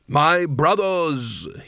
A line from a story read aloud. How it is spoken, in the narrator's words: he intoned